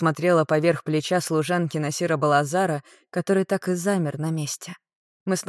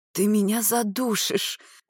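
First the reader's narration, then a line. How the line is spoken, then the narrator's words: Wheezing, gasping for air. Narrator (Russian): прохрипела, пытаясь урвать в этих обнимашках воздуха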